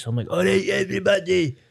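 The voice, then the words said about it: Silly put-on comic voice. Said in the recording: “put on this stupid voice.”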